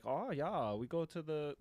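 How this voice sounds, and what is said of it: Put-on German accent. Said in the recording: “German tourists in New York that are like ... I'm doing an accent”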